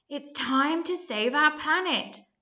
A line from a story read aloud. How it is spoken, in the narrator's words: cried George's dad